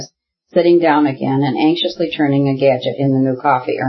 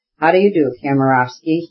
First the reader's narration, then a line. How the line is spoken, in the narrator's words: he added, coldly